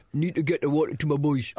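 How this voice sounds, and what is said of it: Imitates another person's voice. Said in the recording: “That's nearly a good impression. ... It's very weird. ... It's getting more and more strange.”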